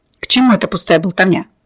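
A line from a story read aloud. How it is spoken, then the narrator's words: Irritated snap. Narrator (Russian): раздраженно бросил Ксантипа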